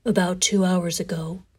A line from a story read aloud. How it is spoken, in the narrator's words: continued in a monotone